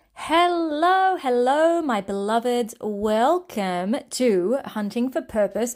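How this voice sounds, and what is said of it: Energetic, excited upbeat voice. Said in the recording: “hear it in my voice,... I'm feeling really zingy, pretty electric”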